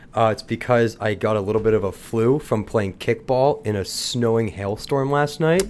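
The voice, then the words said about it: Congested, stuffy voice. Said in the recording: “I sound congested.”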